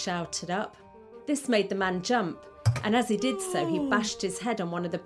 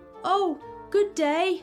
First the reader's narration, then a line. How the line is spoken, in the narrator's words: he shouted down